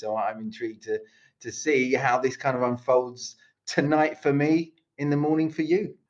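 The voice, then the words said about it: British London accent. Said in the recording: “You might hear my accent. You hear my accent. It's not Croatian. I am British. I'm from London”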